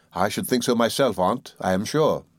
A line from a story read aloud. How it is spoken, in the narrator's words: said I